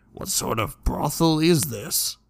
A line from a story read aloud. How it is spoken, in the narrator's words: Jackson muttered